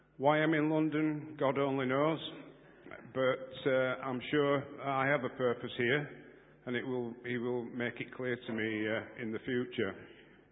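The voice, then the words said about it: Non-London regional accent. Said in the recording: “As you'll guess from my accent, I'm not from London.”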